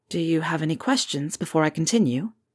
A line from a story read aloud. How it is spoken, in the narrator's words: Harry asked quietly